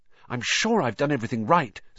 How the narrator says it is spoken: said Hermione, nervously

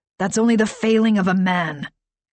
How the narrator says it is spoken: Greg rasped

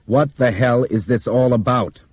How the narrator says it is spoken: Brian asked Bob sternly

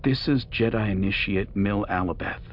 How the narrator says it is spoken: Anakin said

